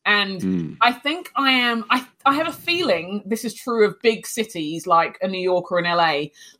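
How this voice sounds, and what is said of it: London English accent. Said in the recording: “not only it's an English accent, it's a London accent.”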